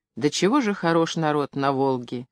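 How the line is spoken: Admiring, sniffling whisper. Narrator (Russian): с восхищением говорил Рубцов, часто сморкаясь, сплевывая, и шептал мне

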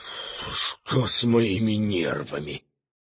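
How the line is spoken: Quietly into the phone. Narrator (Russian): тихо сказал в трубку

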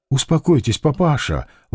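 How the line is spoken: Gentle request. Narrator (Russian): ласково попросила

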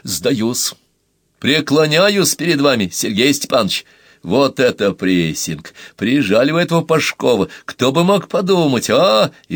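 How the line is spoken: Joyless loud laughter. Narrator (Russian): он захохотал, прикрыв холодные глаза, где не было никакой радости

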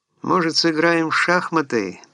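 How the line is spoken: Tired voice. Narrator (Russian): предложил он усталым голосом

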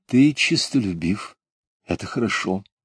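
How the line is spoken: Gentle soothing praise. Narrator (Russian): Мать, ласково успокаивая его, сказала, похвалила

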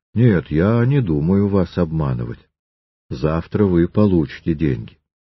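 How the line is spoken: Calm reply. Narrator (Russian): Триродов спокойно ответил ему

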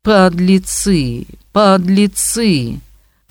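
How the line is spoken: Slow, vicious, wide-mouthed. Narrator (Russian): твердил он медленно и злобно, широко разевая свой волчий рот

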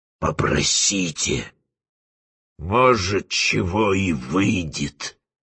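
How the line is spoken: Meaningful, through gritted teeth. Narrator (Russian): сквозь зубы многозначительно сказал Фиелла

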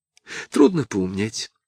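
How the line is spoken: Sighing. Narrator (Russian): вздохнула Дуняша

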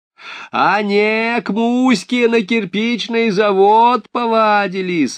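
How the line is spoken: Shouting after someone. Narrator (Russian): орала урна ей вослед

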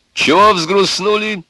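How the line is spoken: Cheerful, loud. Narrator (Russian): весело и громко сказал Егор

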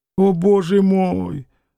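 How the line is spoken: Sad quiet sigh. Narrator (Russian): вздохнув, сказал Ежов грустно и тихо

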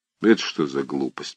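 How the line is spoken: Muttering. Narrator (Russian): пробормотал он

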